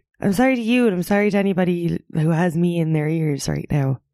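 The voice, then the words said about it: Husky, nasal voice. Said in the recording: “my voice is kind of husky right now ... And I sound kind of nasally”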